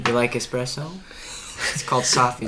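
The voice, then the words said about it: Jazzy, soft-spoken character voice. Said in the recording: “put on my Jazzy Dean voice ... It's like Bob Ross's voice.”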